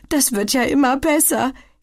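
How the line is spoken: Gasped. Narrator (German): japst sie

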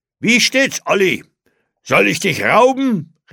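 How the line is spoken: Calling out. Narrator (German): rief er

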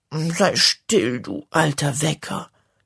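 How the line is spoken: Sleepy grumbling. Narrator (German): brummt sie schläfrig

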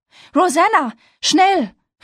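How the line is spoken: Called out. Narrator (German): rief Abby

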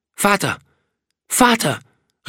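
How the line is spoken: Sudden call. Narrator (German): rief er plötzlich

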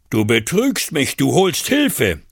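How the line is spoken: Screamed. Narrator (German): schrie Dschudajuda

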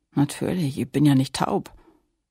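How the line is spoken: Groaned. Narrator (German): Flosse stöhnte

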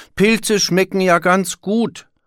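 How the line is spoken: Calling out. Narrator (German): rief Willi

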